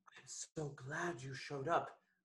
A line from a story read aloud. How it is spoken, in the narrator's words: I whispered, close to his ear